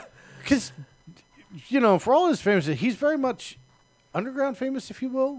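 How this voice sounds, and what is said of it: Usual voice. Nothing is said of it.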